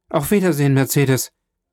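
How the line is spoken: Calling out. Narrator (German): Er fuhr rasch mit dem Kopf zu dem Schlag hinaus und rief

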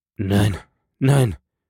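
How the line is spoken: Stammering, strained voice. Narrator (German): stammelte Herr von Villefort mit gepresster Stimme

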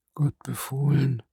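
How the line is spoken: Old man murmuring. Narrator (German): murmelte der Greis

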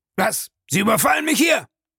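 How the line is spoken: Asked roughly. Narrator (German): fragte rau

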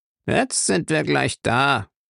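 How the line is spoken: Man grumbling. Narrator (German): brummte der kleinere Mann

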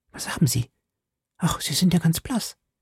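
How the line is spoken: Very quiet. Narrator (German): sagte Kitty ganz leise

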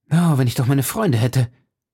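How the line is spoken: Sighed. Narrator (German): seufzte er

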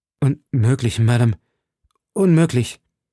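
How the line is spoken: Unconvinced stammer. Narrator (German): stammelte Felton, der im Grunde seines Herzens die Nichtigkeit dieser Worte empfand

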